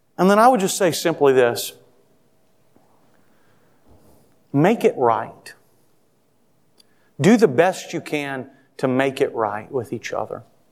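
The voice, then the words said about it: Loud, raised yelling voice. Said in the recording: “maybe I'm yelling a little bit”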